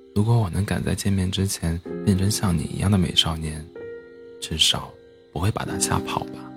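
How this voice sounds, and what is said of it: Very quiet, soft voice. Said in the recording (Chinese): “小小声的说道”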